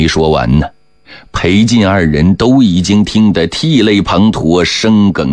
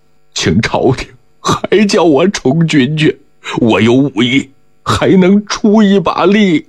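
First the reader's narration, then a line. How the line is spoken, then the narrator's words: Tearful, choked sobbing. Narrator (Chinese): 晋文奎也满脸是泪，也哽咽得不能成声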